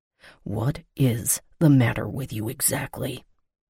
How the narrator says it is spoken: He whispered

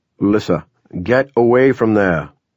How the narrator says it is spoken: Duke shouted

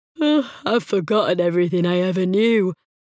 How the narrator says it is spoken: Tosh said with a yawn

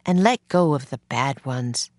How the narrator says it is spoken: Miss Neely said gently

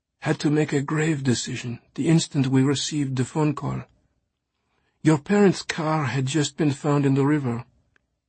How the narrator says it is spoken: Marie had explained in a voice choked with pain

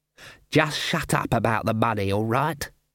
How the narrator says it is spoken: hissed Ashfelt

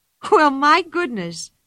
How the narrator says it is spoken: she cried

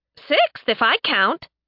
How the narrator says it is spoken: Sen chirped

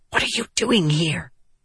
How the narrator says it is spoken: she hissed at him

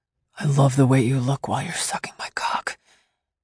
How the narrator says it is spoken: he whispered

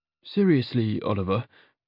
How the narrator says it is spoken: I asked, nervously

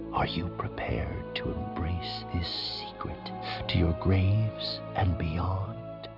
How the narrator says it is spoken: whispered through his mind

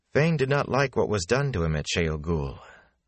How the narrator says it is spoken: Moraine continued calmly

